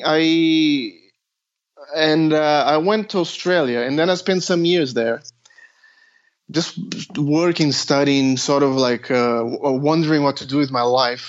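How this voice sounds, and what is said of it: Non-native English accent, Brazilian. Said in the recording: “You can hear it in my accent. I'm sort of not a native English speaker, but I'm born in Brazil, but I'm Australian as well.”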